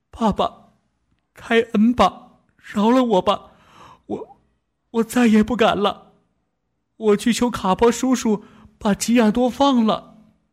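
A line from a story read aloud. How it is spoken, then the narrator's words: Sobbing. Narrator (Chinese): 杜纳多呜咽着，一边念起文，一边继续地哭着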